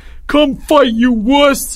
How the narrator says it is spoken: Albert screamed

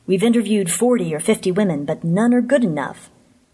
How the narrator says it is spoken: he added testily

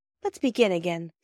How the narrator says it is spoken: said Phyllis

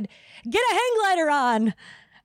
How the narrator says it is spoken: shouted

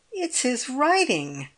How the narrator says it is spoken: cried the girl, with pain and awe in her excitement

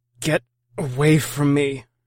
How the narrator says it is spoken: slurred

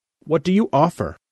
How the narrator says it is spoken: Alna said sharply

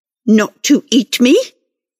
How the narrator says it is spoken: snarled

